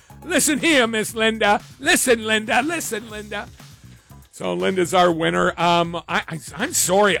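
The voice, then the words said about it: Strained, fading voice. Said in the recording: “I'm losing my voice. ... I've been yapping so much this week”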